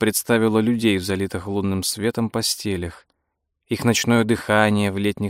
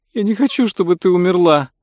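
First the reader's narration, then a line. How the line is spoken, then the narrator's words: Sobbing. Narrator (Russian): рыдала Франсин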